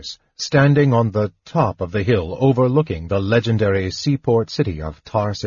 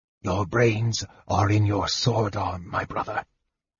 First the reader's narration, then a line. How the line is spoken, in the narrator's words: the mage whispered caustically